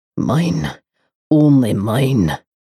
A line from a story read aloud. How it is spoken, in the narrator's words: snarls